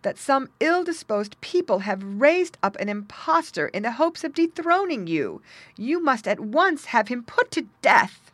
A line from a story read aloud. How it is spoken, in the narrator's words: she cried